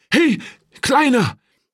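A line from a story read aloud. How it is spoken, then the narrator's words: Calling out. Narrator (German): rief zu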